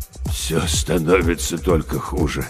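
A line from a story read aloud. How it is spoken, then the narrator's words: Delirious old man muttering. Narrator (Russian): словно в бреду бормотал старик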